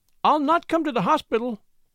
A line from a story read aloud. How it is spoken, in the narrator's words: she cried warningly